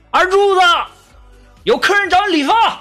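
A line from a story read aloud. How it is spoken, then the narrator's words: Anxious calling. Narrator (Chinese): 老板急了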